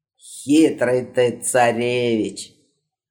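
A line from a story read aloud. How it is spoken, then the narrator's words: Sighing, smiling. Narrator (Russian): Вздохнув, улыбнулся Шарлемань XVIII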